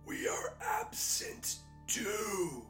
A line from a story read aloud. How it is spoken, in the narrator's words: the Wraith croaked